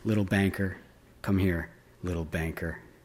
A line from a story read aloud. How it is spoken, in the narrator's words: murmuring